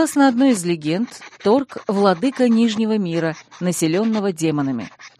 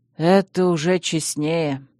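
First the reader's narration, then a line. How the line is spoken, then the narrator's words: Sighing. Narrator (Russian): вздохнул человек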